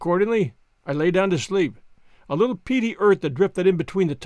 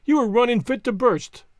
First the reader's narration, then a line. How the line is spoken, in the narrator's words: cried